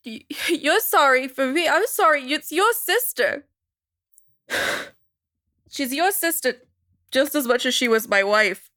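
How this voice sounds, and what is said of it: Crying, emotional voice. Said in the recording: “when I'm crying ... You're emotional”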